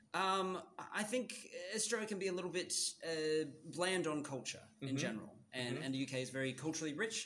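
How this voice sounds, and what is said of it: Canadian-sounding accent. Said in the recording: “you sound Canadian.”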